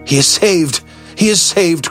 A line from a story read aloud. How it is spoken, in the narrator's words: cried